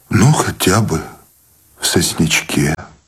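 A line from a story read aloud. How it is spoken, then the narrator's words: Trembling voice. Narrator (Russian): дрогнувшим голосом согласился Сущеня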